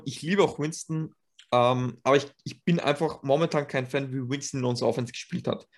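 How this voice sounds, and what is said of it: Austrian-accented standard German. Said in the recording (German): “ich mag unglaublich gern deinen Dialekt. Der ist nämlich urgeil. ... das ist schon österreichisch, wenn man versucht, Hochdeutsch zu reden”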